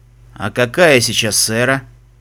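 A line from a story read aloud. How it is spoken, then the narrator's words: Tired voice. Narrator (Russian): спросил Фестрал усталым голосом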